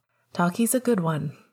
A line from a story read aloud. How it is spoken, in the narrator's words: Remus said